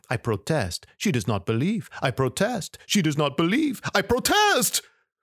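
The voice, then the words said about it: French accent. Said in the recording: “I am speaking with a French accent ... waking up with a French accent”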